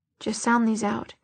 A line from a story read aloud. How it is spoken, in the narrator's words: he muttered